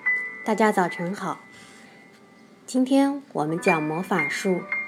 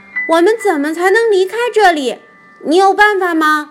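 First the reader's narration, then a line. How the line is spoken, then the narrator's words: Calling out. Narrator (Chinese): 乔叫道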